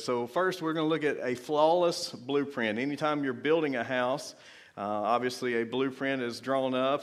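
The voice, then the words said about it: Strained, worn-out voice. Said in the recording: “My voice is already like gone.”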